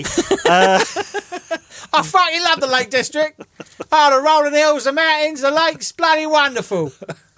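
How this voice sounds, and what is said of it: Put-on Cockney accent. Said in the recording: “I can do one accent and this is it. ... Big Dave the Cumbrian Cockney”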